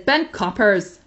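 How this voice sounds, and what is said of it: Poor put-on Northern Irish accent. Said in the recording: “that was a really terrible Northern Irish accent ... I knew you were doing Northern Irish.”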